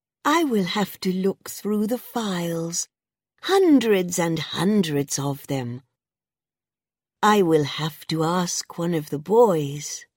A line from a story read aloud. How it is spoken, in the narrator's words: she said sweetly